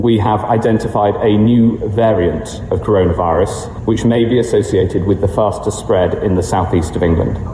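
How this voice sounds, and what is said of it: British accent. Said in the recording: “He's from the UK. You probably could tell by the accent.”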